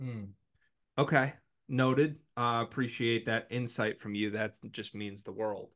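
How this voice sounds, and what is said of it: Usual voice. Nothing is said of it.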